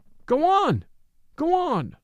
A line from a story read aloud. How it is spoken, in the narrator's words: But the people cried